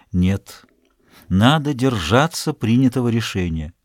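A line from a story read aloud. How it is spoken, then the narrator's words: Gentle refusal. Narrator (Russian): Он мягко отказал ей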